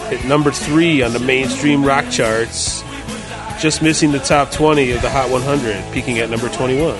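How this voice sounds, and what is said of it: Poor radio countdown announcer impression. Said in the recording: “terrible Casey Kasem impression”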